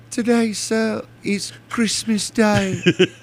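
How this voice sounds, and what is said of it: Put-on accent, fairly convincing. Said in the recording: “good with the accent... is pretty good with the accent there.”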